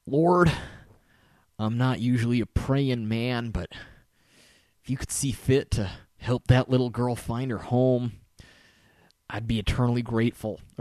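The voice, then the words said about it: Southern accent, British actor imitation. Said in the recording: “my best British actor doing Southern accent impression”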